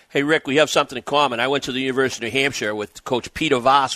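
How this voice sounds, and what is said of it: Strong regional New England accent. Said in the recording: “You sound like him. ... the accent is crazy ... talk like us”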